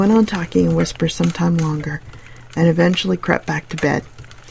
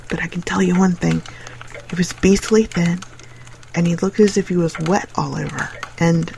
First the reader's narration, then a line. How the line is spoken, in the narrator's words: he said, whispering as if he hardly liked to hear himself